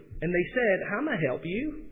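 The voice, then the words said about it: Put-on Southern accent, winded. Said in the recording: “an incredibly southern voice and quite winded ... I'm not going to do the accent for the rest of the sermon”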